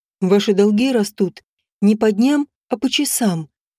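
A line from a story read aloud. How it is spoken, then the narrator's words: Intimate purr. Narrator (Russian): промурлыкал он мне прямо в губы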